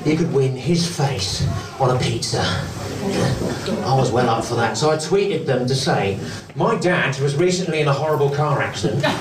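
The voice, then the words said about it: British accent, glottal stops, nasal. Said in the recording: “this accent is a bit of a difficult sell, isn't it? It's the glottal stops of the working class combined with the smug nasalness of the middle class”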